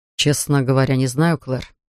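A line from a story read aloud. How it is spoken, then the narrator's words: Sighed. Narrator (Russian): вздохнул он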